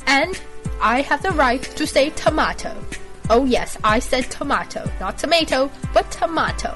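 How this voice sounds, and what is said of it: Deliberately bad fake British accent. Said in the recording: “fake a British accent ... I find the British accent that I'm faking right now to be quite ridiculously fail ... a British accent that is completely fail”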